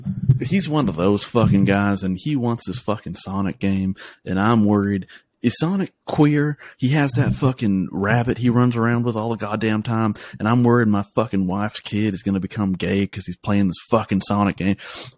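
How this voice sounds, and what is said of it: Put-on redneck trailer-park accent. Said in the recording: “That's the only accent I can do ... I grew up a bunch of fucking redneck, trailer park kind of people ... I was around that type of accent”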